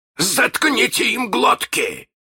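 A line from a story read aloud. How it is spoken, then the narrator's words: Bark. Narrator (Russian): рявкнул Крюк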